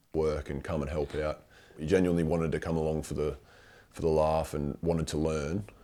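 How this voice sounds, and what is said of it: Affected vocal fry. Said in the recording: “that's a fake voice. That's called a vocal fry. ... it's really irritating.”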